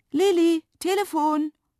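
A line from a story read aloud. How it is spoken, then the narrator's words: Mother calling from downstairs. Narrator (German): rief Mama von unten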